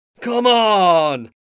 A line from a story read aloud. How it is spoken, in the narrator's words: finally shouted